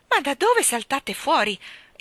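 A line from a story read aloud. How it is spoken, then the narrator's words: Exclamation. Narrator (Italian): esclamò la signora Banks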